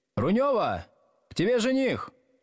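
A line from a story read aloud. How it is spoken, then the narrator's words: Woman calling out loudly. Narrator (Russian): какая-то женщина крикнула в глубину помещения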